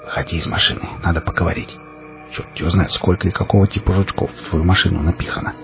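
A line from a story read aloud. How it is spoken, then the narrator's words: Whispered. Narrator (Russian): прошептал я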